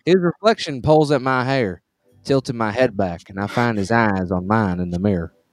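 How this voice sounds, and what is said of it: Put-on Southern accent, pretty good. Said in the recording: “Clearly, this is written by a southerner ... you're pretty good at the accent”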